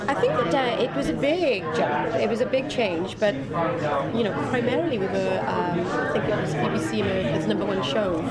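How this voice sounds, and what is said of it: Welsh accent. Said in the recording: “my little Welsh accent”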